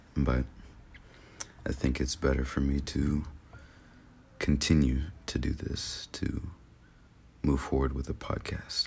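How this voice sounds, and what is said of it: Slightly congested, sick-sounding voice. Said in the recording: “I have a little cold”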